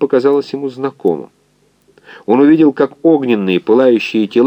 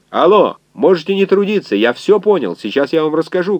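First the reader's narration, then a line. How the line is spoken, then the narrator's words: Shouted. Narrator (Russian): крикнул доктор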